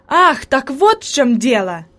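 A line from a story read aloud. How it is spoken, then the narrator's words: Exclamation. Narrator (Russian): воскликнул Себастьян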